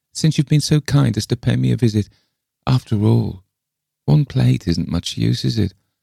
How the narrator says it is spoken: sighed Miss Lefane

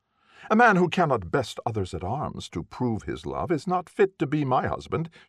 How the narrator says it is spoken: said haughtily

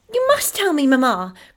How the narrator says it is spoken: cried Effie, ready to believe anything possible

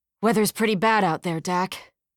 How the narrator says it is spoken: Runyon grunted

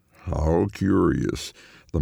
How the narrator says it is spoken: the man drawls

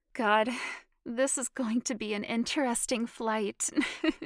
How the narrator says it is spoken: she said, laughing

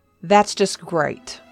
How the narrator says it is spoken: he growled

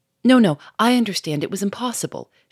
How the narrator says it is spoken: she cried quickly, cutting him short

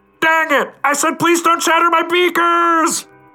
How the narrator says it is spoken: Outside, Carlos yells

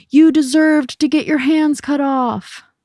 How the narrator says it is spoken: a boy in the audience yelled

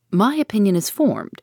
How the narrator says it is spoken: replied Ned Land, sharply

